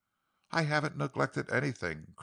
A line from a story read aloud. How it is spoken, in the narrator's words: Craig faltered